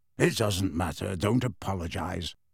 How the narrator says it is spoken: Sirius mumbled at once

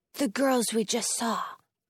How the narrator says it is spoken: Jonah whispers

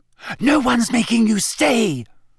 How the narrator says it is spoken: Hermione whispered, bristling at her

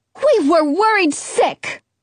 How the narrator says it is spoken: my mom barks

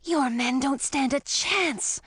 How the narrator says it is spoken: I whispered to Edric

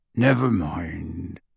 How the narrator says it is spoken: he said gruffly

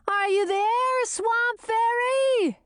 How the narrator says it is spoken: she wailed

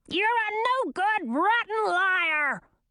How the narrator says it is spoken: screamed the queen

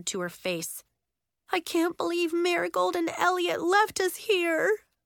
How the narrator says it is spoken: she moaned

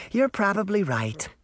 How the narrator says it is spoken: the woman sighed

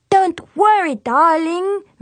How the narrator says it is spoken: Miss Bri-Bri said

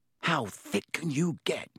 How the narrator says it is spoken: Ron whispered ecstatically

